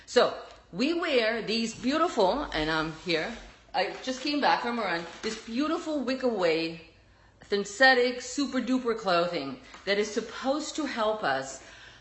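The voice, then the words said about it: German accent. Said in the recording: “my German accent, sometimes it sounds a little bit different”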